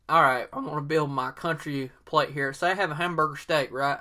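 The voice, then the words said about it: Exaggerated put-on Southern US accent. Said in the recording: “I'm using my real Southern accent, my 100% authentic Southern accent here.”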